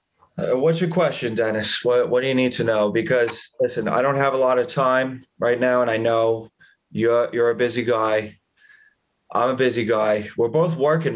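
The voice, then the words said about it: Impression of Tom Costigan. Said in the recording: “you gotta listen to my brother do some impersonations. ... can you call me up as Tom Costigan? Can you give me a quick call as Tom?”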